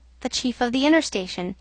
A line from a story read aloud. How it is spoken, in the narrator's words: he answered in a short tone